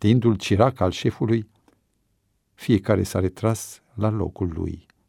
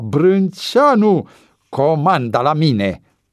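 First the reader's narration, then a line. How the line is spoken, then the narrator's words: Satisfied shout. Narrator (Romanian): strigă Cotoi cu vizibilă satisfacție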